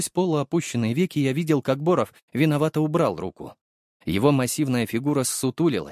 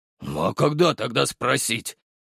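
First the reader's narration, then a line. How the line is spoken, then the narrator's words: Quiet sheepish bass. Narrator (Russian): пробасил он тихо, словно нашкодивший медведь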